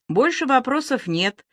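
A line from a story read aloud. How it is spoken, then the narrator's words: Calm, indifferent voice. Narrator (Russian): произнес он все тем же спокойным и, как показалось Але, безразличным голосом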